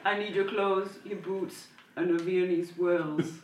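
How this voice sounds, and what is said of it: Austrian-accented Terminator movie voice. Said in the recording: “the only Austrian accent I can do is an army... I would have expected like a Terminator... How would that sound?”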